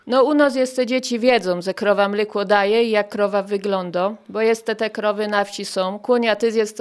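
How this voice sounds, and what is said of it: Regional rural Polish dialect. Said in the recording (Polish): “I mówię gwarą”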